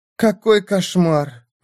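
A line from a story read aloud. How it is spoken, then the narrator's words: Breathless exclamation. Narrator (Russian): выдохнула леди Лаура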